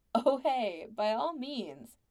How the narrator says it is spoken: Jill laughed at him

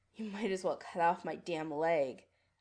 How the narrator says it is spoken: Adam snarls

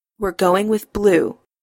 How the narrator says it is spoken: Adam says firmly

